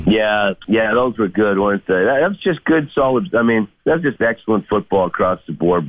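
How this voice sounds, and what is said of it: Voice affected by a cold. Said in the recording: “I've had a little bit of a cold. You'll probably hear it in my voice.”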